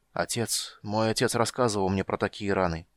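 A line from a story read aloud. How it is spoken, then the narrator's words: Stammering mutter. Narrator (Russian): пробормотал он, запинаясь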